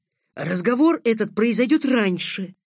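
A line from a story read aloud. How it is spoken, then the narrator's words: Hissed after someone. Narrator (Russian): прошипел вслед белобрысый начальник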